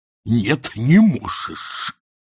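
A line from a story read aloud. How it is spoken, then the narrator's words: Hissed. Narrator (Russian): прошипел он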